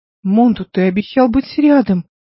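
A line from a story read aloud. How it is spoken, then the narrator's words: Pleading. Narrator (Russian): взмолилась Нейда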